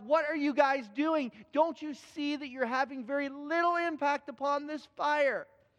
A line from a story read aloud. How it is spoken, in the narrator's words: finally he yells